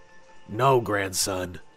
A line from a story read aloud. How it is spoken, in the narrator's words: said solemnly